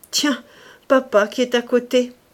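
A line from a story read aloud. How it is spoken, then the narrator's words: Theatrical, mugging exclamation. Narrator (French): s'écriait avec la grimace qu'il empruntait aux acteurs en vogue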